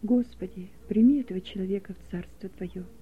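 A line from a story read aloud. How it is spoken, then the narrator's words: Quiet prayer. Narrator (Russian): Никитин тихо произнес молитву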